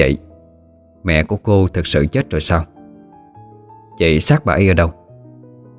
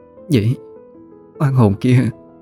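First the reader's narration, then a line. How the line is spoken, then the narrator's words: Trembling voice. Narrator (Vietnamese): run rẩy lên tiếng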